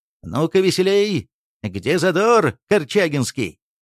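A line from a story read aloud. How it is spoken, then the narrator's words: Loud guffaw. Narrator (Russian): Каланча захохотал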